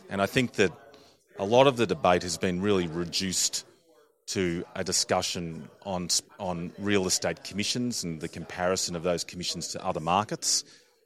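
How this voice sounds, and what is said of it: Australian accent. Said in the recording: “You may have detected my accent. I'm an Australian”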